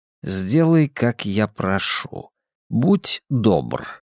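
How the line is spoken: Quiet. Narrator (Russian): тихо сказал я

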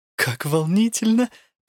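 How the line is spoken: Cooing. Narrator (Russian): проворковала Элла

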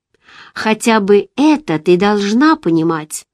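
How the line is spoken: Plain. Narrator (Russian): ответил он

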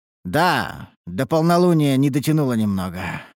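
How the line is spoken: Sighing. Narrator (Russian): вздохнул я

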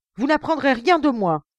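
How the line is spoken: Emotional exclamation. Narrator (French): s'écria-t-il avec une émotion qui me surprit

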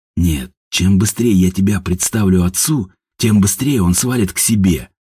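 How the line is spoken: Mutter. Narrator (Russian): пробормотал Степан

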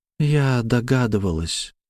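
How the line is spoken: Sad smirk after pause. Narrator (Russian): грустно ухмыльнулась Славя после долгой паузы

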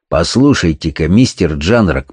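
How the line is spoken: Somewhat too sharp. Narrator (Russian): произнес, быть может, несколько более резким тоном, чем требовали мои слова

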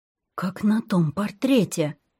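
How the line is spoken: Almost whispering. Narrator (Russian): почти шепотом известила своих Света

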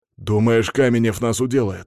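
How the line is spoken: Snapping back. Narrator (Russian): огрызнулся Петя

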